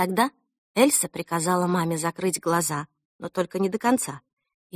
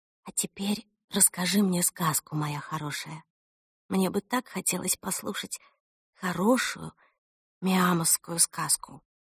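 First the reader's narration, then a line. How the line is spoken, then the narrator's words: Mother whispering. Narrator (Russian): мама прошептала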